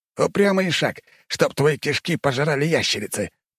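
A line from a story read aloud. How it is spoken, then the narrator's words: Growling. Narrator (Russian): прорычал турок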